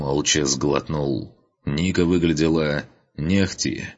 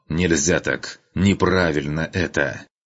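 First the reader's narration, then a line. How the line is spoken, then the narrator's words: Unusually hoarse voice. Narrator (Russian): Голос непривычно хрипел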